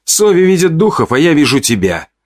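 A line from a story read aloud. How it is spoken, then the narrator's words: Snapping retort. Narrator (Russian): огрызнулся Белк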